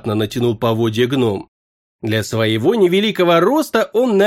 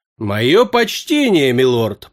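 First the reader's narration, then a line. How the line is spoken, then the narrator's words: Deep booming voice. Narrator (Russian): прогудел орк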